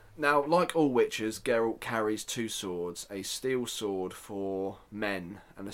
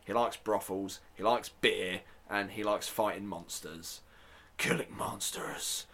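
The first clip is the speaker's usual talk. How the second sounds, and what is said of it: Weak gruff character voice impression. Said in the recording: “terrible Geralt impression ... spray some, I don't know, aerosol in my throat. Get it gruff enough for it.”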